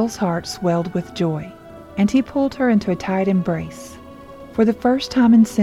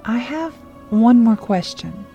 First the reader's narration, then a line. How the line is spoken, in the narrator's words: Hannah said hesitantly